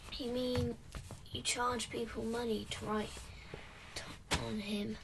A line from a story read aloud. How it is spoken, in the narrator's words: said Lila